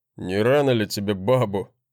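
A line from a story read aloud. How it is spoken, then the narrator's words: Mocking snort. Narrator (Russian): хмыкнул брат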